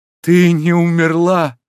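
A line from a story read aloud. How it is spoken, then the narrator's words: Overwhelmed emotional exclamation. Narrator (Russian): Джальма с непередаваемым выражением воскликнул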